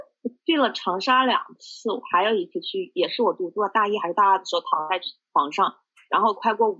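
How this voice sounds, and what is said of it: Usual voice. Nothing is said of it.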